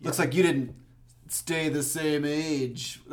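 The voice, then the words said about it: Imitates another person's voice. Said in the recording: “That was my McConaughey impression.”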